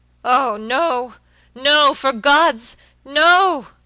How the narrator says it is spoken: he shrieked hoarsely

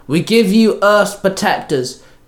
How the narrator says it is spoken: Trini called out

